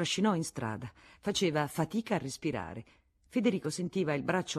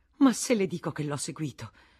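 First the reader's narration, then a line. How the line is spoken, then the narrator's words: Exclaiming. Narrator (Italian): esclamò la Vatnaz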